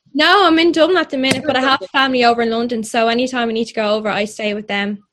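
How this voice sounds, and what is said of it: Irish accent. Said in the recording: “Lovely Irish accent I'm hearing.”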